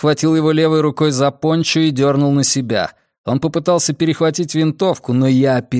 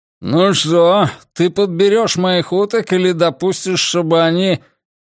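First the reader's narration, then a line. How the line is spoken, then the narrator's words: Grumbled around cigar. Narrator (Russian): он проворчал, не вынимая изо рта сигары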